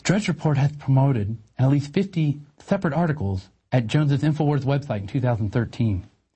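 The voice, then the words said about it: Simpering public-radio announcer voice. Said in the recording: “my simpering NPR voice.”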